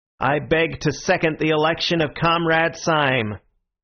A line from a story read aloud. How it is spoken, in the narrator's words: the long, lean man with the American beard was repeating in a high American monotone